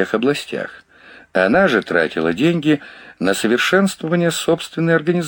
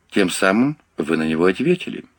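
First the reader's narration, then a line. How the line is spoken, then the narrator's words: Calm, sympathetic remark. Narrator (Russian): спокойно и даже сочувственно заметил Лоринг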